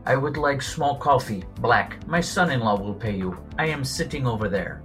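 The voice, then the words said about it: Slight put-on Russian accent. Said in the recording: “with a little Russian accent”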